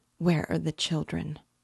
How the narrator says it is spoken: she said in a faint voice

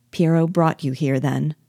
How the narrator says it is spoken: asked I

